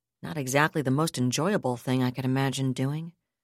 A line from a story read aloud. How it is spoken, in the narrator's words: Michelle Hankey replied dryly